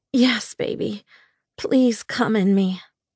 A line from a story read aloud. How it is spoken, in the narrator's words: I begged